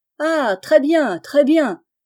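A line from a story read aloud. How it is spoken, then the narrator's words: Shouted. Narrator (French): cria à son tour monsieur Chabre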